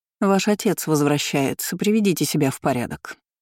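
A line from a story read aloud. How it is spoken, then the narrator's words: Displeased reply. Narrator (Russian): недовольным тоном ответила нянечка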